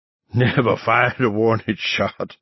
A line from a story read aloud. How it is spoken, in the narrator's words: Weems cackled breathlessly